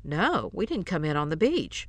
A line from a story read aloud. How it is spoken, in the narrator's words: replied Morton in an awed tone